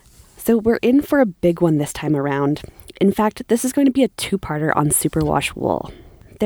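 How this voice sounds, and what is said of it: Husky voice recovering from illness. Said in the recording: “The sultry sound of my voice may be a little different today. I've had this wicked rhinovirus”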